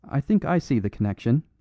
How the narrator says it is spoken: said the priest

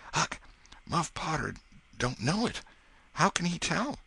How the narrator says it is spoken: Presently he whispered

